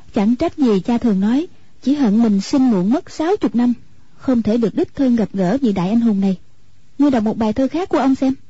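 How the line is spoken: Sighing. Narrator (Vietnamese): Hoàng Dung thở dài nói

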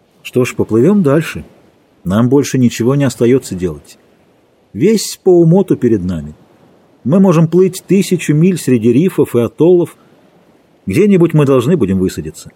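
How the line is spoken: Calm reply. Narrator (Russian): Маккой, спокойно ответил

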